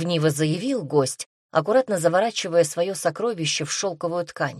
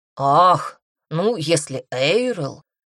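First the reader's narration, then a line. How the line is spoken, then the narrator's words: Drawn out. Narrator (Russian): протянул Эллен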